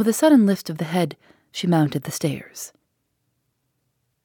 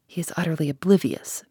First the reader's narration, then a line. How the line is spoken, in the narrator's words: Mary whispered